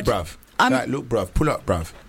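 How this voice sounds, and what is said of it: Put-on British accent. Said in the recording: “British accent ... do the accent”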